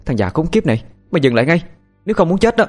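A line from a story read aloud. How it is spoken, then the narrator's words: Loud shout. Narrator (Vietnamese): Tiên hét lớn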